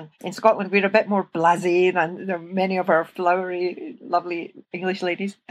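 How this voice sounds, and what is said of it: Scottish accent. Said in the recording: “you can hear from my accent, I'm Scottish”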